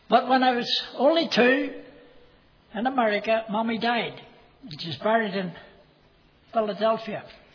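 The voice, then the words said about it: American accent. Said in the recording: “I was born in the United States of America. You can tell that by my accent”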